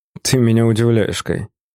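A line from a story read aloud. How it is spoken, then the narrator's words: Snorting corporate boss. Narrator (Russian): хмыкнул глава корпорации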